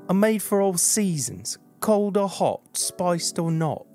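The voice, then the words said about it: Put-on British accent. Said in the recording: “I guess I could have read it in a British accent.”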